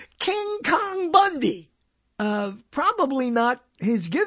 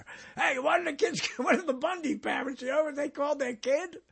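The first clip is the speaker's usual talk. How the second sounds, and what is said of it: Blue-collar worker character voice. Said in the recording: “I always do the same voice, right? He's a blue-collar worker, this doctor.”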